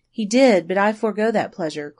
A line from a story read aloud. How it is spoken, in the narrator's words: cried the girl quickly